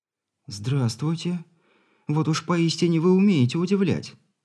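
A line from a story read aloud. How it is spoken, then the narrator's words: Girl, confused and slightly excited. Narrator (Russian): растерянно и отчего-то даже немного взволнованно произнесла девушка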